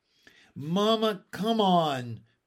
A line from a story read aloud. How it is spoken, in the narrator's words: begged Ramona